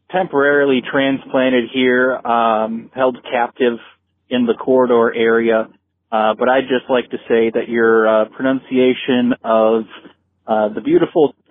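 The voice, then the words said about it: Minnesota accent. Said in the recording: “Minnesota. I can tell from his accent... That was a really good accent.”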